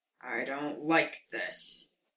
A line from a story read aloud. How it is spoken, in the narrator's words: Moody grumbled